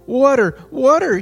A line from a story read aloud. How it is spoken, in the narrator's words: he cried in despair